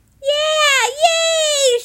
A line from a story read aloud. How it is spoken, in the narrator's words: shouted Lucille